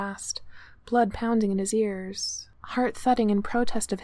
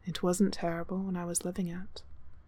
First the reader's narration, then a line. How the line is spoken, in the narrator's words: Tora said quietly